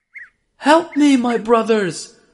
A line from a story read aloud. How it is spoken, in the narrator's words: Yusuf alayhi salam cried